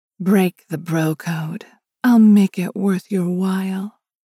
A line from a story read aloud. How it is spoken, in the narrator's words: cooed in her best sex vixen tone